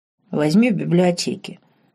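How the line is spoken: Curt grunt. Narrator (Russian): буркнул Винсент

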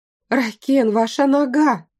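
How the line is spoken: Exclaiming. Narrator (Russian): воскликнула я

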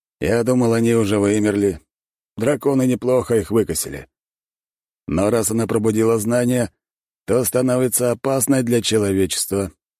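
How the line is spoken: Calm. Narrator (Russian): спокойно ответил

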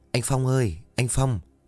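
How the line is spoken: Soft calling. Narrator (Vietnamese): khẽ gọi

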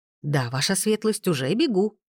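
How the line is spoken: Exclaiming. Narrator (Russian): воскликнула Лили

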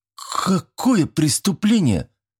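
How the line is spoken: Frightened hiccup. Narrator (Russian): снова икнул Федька, но уже более испуганным голосом

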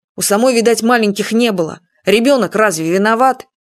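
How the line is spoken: Firm, weighty tone. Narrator (Russian): Юрка внушительно сказал

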